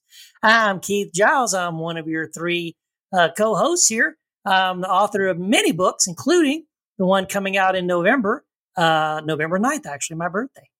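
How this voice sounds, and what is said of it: Slight Texas accent. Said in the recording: “I had a little, little bit of a Texas accent ... I got to fight my uh, Texas accent coming back.”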